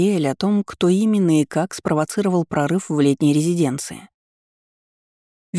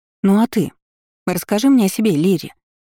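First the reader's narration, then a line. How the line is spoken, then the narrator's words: Exclamation. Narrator (Russian): воскликнула Анриэль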